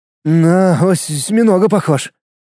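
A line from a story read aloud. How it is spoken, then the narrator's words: Trembling voice. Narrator (Russian): дрогнувшим голосом произнес Влад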